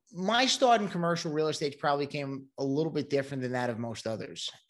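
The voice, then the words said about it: Brooklyn New York accent. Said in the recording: “I'm originally from Brooklyn, New York, and that might be given away by the accent.”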